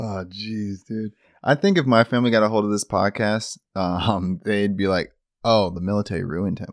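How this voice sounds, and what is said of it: Usual voice. Nothing is said of it.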